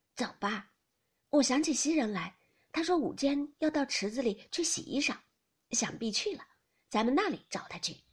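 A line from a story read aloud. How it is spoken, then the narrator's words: Hasty, wary. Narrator (Chinese): 怕他言语之中取笑，便忙 道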